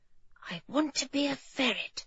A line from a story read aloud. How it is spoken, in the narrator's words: she whispered